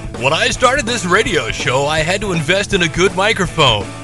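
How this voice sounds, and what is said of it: Radio announcer voice. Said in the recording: “put on my radio voice.”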